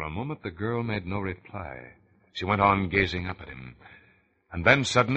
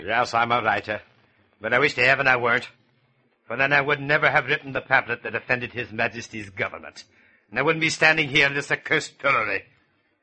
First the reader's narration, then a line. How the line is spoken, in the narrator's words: the prisoner answered bitterly